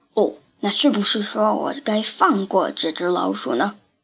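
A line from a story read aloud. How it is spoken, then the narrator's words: Muttering. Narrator (Chinese): Trap 咕哝着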